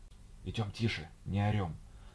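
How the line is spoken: Whispered. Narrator (Russian): шепотом сказала Тинка

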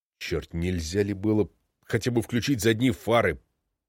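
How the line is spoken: Muttered. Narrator (Russian): бормочет Барнадсон

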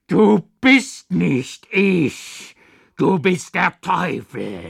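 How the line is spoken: Cry out. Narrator (German): schrie ich auf

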